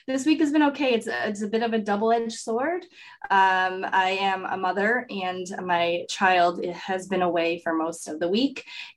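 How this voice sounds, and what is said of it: Sick, congested-sounding voice. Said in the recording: “I so conveniently caught the cold that she has bestowed upon me. So you could still hear it in my voice.”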